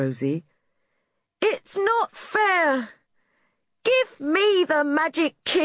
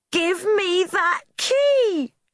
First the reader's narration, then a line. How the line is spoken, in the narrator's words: shouted Rosie